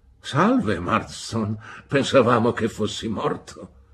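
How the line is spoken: Exclaimed. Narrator (Italian): Entrambi si alzarono indolentemente in piedi quando arrivammo, esclamando

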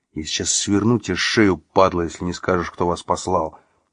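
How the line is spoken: Threat hissed through teeth. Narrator (Russian): процедил он сквозь зубы на ухо своему противнику

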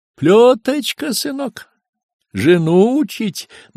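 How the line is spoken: Singsong. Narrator (Russian): нараспев

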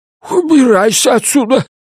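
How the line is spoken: Squeaky. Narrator (Russian): пискнул он

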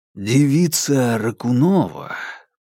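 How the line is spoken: Almost tender. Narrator (Russian): почти нежно проговорил он

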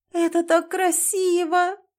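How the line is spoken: Moaning. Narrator (Russian): простонала Анастасия

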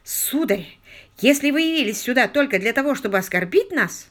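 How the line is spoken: Exclamation. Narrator (Russian): воскликнул Вайт Петри

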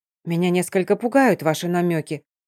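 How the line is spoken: Frowning mutter. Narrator (Russian): нахмурившись, пробормотала я

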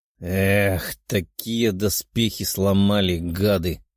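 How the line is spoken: Grumbling. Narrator (Russian): проворчал тот, кто и подорвал броню

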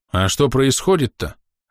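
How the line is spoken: Offended. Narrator (Russian): обиженно произнес Тушем

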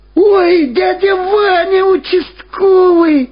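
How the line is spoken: Joyful shout. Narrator (Russian): радостно закричал Владик

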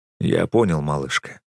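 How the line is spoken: Soft soothing. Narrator (Russian): мягко успокаиваю я

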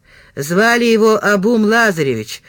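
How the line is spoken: Grumble. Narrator (Russian): проворчал Северин

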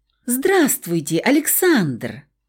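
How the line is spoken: Joyful. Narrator (Russian): сказал последний так радостно

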